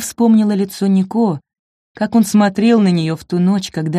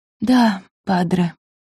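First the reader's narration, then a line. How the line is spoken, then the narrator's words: Whispered. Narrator (Russian): прошептала Нина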